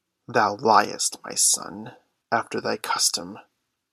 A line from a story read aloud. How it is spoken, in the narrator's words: put in Caloo, with a triumphant chuckle